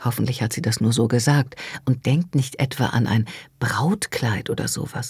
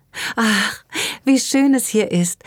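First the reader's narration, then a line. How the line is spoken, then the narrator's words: Sighing. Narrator (German): seufzt sie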